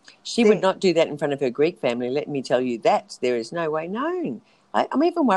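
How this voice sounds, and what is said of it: Usual voice. Nothing is said of it.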